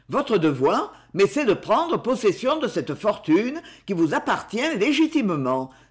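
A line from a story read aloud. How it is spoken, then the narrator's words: Exclaimed. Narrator (French): s'exclama Blangard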